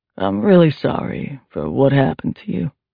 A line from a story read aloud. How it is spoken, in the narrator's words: Trent said in his low, gravelly voice